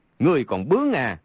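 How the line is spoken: Angry. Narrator (Vietnamese): Trượt Xích tức giận nói

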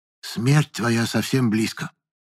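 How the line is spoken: Quiet. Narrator (Russian): тихо сказала она

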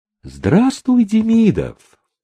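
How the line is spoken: Singsong voice. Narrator (Russian): обратилась она к нему певучим голосом

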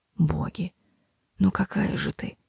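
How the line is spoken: Whisper. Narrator (Russian): прошептал

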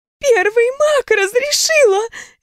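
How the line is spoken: Babbling. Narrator (Russian): лепетала она

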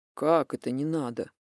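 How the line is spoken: Sleepy mumble in ear. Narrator (Russian): сонно пробурчал Демьян мне в ухо

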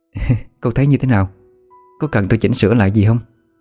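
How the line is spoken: Smiling question. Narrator (Vietnamese): Người thợ trang điểm ... mỉm cười hỏi

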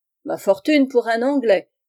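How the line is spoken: Shouted. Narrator (French): cria Ralston

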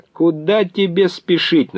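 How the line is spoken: Mocking shout. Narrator (Russian): насмешливо крикнул он

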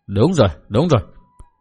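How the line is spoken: Thoughtful muttering. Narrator (Vietnamese): phong cái, mặt lộ vẻ trầm tư, lẩm bẩm nói một mình

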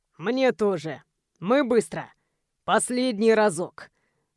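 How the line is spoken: Hoarse panting. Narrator (Russian): Хрипит, часто дышит

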